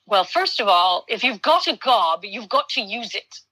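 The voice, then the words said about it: Poor put-on British accent. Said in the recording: “his British... I'm doing terrible at British accent”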